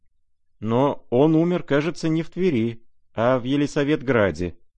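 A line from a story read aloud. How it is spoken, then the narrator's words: Timid remark. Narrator (Russian): робко заметил князь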